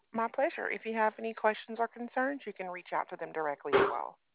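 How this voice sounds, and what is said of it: Mild Southern American accent. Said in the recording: “you have like that same, like not quite all the way southern accent, you know? But I can kind of hear it”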